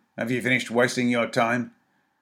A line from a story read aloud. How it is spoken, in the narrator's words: said sharply